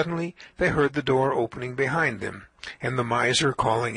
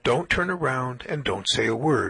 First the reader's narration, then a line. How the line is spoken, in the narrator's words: whispered the Rebbe